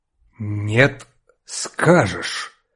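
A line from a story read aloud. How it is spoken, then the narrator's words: Clipped, threatening. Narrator (Russian): отчеканил отец, и в голосе его зазвучала угроза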